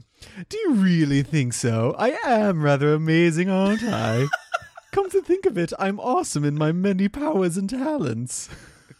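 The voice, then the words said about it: Character voice. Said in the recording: “doing a Flipto impression”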